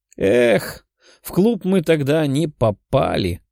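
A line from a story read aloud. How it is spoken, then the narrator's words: Sighed. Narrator (Russian): вздохнула Лиза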